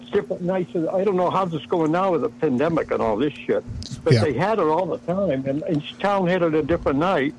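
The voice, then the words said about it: Massachusetts accent. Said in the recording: “you got the accent, man. Were you from, like, Boston or somewhere? ... it sounded like a Massachusetts accent. ... still got a little bit”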